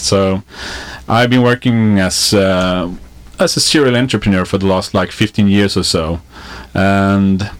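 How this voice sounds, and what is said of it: Swedish accent. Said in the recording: “I'm from Sweden, so that's, you know, excuse for the accent”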